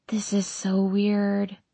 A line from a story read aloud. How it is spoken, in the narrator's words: I whisper